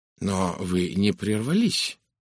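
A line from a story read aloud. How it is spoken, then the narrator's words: Muttering. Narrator (Russian): пробормотал Пуаро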